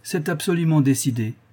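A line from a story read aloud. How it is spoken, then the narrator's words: Curt man. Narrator (French): répondit-il d'un ton bref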